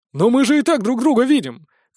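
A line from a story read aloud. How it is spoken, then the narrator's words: Distant shout. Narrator (Russian): крикнул с конца очереди Нокс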